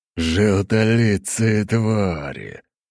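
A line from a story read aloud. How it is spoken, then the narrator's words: Growling huge man. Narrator (Russian): прорычал огромный двухметровый мужчина с оголенным торсом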